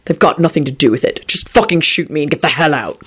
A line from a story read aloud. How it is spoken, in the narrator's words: Quentin replied irritably